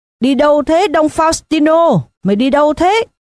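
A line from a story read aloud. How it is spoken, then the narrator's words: Shrill shout. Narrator (Vietnamese): có người hét the thé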